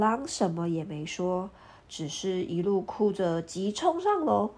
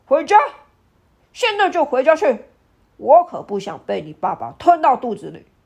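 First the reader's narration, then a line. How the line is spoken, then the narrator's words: Old man, loud. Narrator (Chinese): 爷爷大声地说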